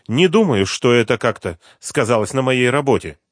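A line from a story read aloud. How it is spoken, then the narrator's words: Sharp reply. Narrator (Russian): резко ответила Суслова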